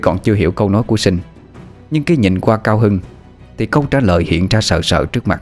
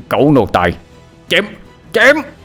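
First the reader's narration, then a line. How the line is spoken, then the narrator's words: Childish indignant shout. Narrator (Vietnamese): Vẻ mặt Ngôn Khoan như một đứa con nít đột ngột bị lấy đi thanh kẹo, miệng mở tan quát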